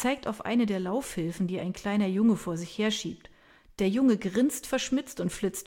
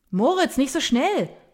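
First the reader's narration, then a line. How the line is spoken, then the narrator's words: Man bellowing after. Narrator (German): brüllt ein Mann dem Jungen hinterher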